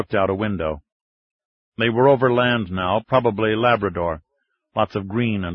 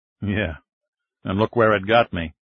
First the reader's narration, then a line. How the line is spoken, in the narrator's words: POTUS observed with a grim chuckle